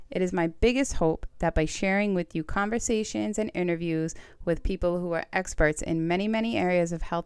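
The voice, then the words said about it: Staten Island New York accent. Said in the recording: “my Staten Island accent”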